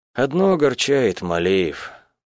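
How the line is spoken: Sigh. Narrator (Russian): вздохнула я

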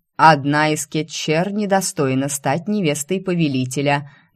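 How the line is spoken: Loud declaration. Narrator (Russian): громко заявила Лия

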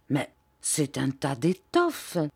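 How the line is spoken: Murmured. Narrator (French): murmura-t-il

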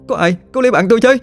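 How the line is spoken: Frightened scream. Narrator (Vietnamese): Kỳ Thư hoảng sợ hét lên

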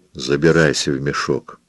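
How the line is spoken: Quiet speech. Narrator (Russian): сказал он тихо

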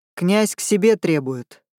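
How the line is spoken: Menacing. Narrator (Russian): грозно произнес он

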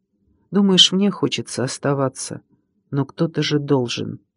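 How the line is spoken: Whisper. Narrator (Russian): Кирилка прошептал

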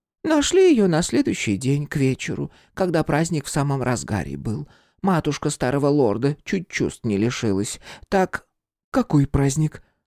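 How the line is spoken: Matter-of-fact tone. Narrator (Russian): добавила обыденным тоном

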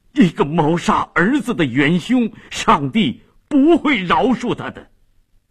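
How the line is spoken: Shocked, grief-stricken shouting. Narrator (Chinese): 费迪南异常震惊，悲愤地喊着

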